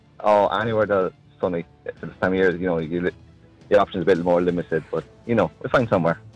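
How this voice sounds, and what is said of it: Strong Midlands English accent. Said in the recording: “good Midlands man. Yeah, nice, strong Midlands accent.”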